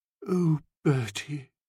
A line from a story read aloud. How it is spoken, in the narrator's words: said in a low voice, like beer trickling out of a jug